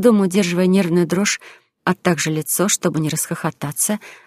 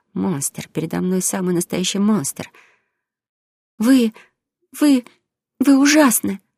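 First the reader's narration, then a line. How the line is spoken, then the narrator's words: Frightened blurt. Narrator (Russian): Испуганно выпалив, я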